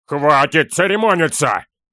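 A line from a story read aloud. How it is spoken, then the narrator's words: Barked roar. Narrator (Russian): Рявкнул Торин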